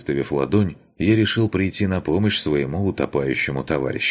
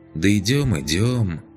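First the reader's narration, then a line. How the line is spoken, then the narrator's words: Resigned sigh. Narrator (Russian): обреченно вздохнул Пончик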